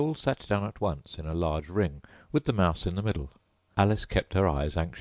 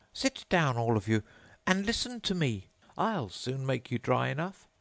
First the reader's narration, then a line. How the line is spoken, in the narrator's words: the mouse, who seemed to be a person of authority among them, called out